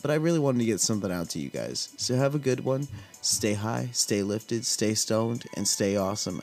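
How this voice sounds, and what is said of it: Slightly rough, hoarse voice. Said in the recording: “My voice is still a little rough”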